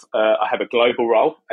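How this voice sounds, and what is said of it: British accent. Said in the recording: “As you can tell from my accent, I'm British. I live in the UK, just outside London.”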